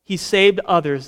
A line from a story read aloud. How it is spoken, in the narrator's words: they said